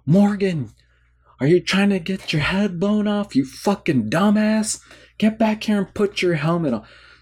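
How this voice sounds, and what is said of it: Yelling angrily. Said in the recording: “he's yelling”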